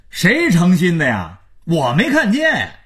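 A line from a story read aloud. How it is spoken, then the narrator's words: Shouting at full voice. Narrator (Chinese): 马家儿子撩开嗓子喊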